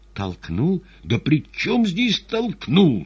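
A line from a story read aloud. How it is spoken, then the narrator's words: Exasperated exclamation. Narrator (Russian): сердясь на общую бестолковость, воскликнул Иван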